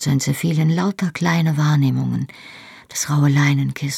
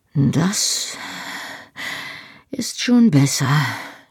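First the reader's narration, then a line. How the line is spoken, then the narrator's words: Panting, broken voice. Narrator (German): sagte eine Stimme, deren Worte durch Keuchlaute unterbrochen wurden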